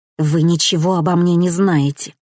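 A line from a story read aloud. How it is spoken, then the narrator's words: Spiteful hiss. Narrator (Russian): злобно прошипела она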